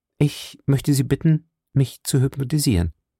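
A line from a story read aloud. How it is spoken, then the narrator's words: Plain. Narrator (German): sagte sie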